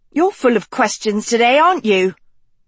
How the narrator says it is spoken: Dot snapped

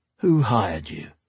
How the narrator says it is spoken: Bane chuckled

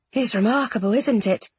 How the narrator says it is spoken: He murmured

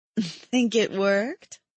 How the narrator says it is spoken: I laughed

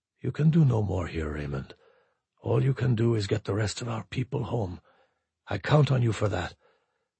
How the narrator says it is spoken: he said very softly

